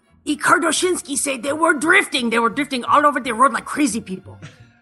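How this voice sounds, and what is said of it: Imitation of father-in-law's accent. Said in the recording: “I'm going to do this in my father-in-law's accent.”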